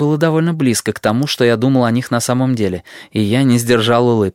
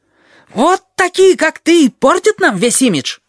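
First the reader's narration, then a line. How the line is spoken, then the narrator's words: Yelling jackal. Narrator (Russian): завопил шакал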